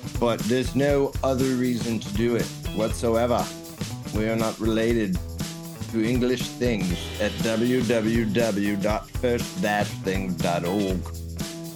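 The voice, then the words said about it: Put-on English accent. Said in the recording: “I'm doing my English accent”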